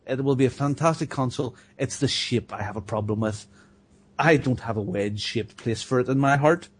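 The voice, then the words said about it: Accent that is sometimes hard to understand. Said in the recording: “sometimes a hard time understanding your accent”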